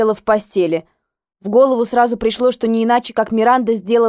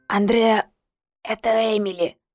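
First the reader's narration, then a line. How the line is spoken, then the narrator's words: Hoarse voice over phone. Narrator (Russian): раздался в трубке хриплый голос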